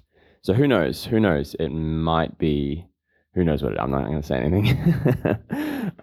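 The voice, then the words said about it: Sick, scratchy voice. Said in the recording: “I'm definitely more sick than I was yesterday ... as you can probably tell, my voice is not doing too good ... it started out with a scratchy throat”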